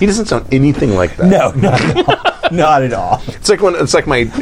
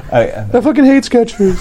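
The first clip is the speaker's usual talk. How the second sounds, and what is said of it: Imitates another person's voice. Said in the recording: “my Rob my Rob impression. ... That's spot on. ... I was uncanny, actually.”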